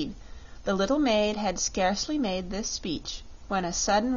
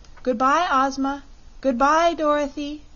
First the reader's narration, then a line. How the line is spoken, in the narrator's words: cried a voice they knew belonged to Polychrome